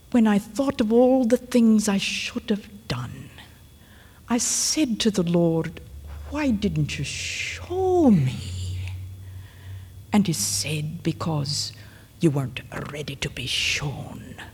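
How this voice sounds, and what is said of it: Imitated elderly Scottish woman's accent. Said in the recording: “she had a wonderful Scottish accent, which I can't really imitate very accurately”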